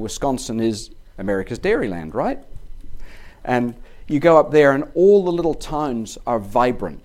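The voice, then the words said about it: Chicago accent. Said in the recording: “You probably tell by the accent, I live in Chicago.”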